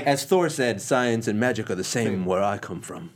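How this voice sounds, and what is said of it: Bad put-on Asgardian accent. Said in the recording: “That was like the worst Asgardian accent ever.”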